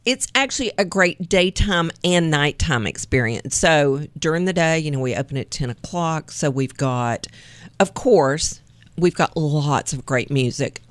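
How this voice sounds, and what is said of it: Slight East Tennessee twang. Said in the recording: “can you tell from my accent? ... just a little bit ... the East Tennessee twang”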